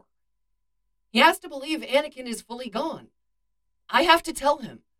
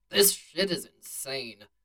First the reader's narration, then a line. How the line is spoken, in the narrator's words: Han grumbled